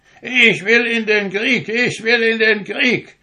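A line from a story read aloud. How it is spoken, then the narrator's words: Toy soldier shouting loudly. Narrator (German): rief der Zinnsoldat so laut er nur konnte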